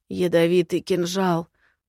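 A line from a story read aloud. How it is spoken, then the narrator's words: Hoarse rasp. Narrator (Russian): прохрипел он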